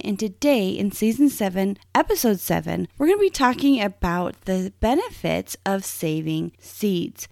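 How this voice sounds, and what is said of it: Strained voice from a cold. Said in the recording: “my voice is a little strained. I've caught a summer cold ... my voice, I just really can't deliver that for you today”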